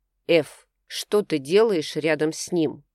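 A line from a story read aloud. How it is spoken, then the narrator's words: Iron-hard repeated demand. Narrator (Russian): повторил Кей железным тоном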